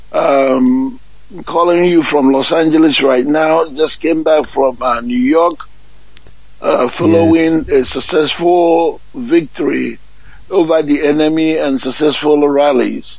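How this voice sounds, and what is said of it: Hoarse, weakened voice. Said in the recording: “I have lost my voice.”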